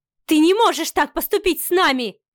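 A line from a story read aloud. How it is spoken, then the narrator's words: Frantic shouting. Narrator (Russian): кричала Ева, окончательно растеряв весь свой лоск светской львицы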